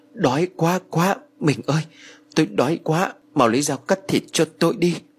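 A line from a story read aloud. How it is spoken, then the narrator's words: Soft, panting. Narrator (Vietnamese): Ông Phú đột ngột thở hổn hển rồi khẽ nói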